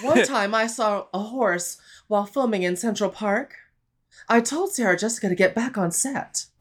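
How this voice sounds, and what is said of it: Kim Cattrall impression. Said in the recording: “I can do a good Kim Cattrall.”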